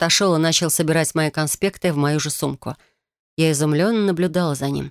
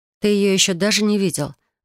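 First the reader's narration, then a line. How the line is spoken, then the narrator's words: Noisy exhale. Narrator (Russian): выдохнула шумно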